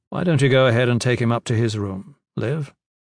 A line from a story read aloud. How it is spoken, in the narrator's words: Gavin said